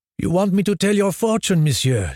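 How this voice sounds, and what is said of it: Exaggerated French accent. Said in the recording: “playing up her French accent.”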